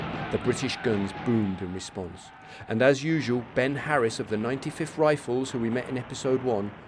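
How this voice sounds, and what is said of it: Usual voice. Nothing is said of it.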